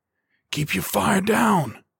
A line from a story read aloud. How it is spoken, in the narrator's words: Mac hissed